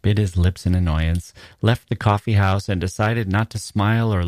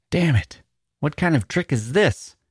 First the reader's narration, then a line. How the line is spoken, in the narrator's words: cried